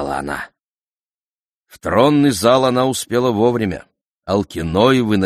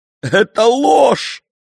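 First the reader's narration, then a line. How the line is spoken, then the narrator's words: Sobbing. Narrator (Russian): прорыдала Медея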